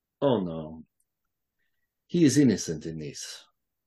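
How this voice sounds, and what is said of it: Thick put-on Russian accent. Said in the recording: “That is certainly a Russian accent... It's a very thick accent.”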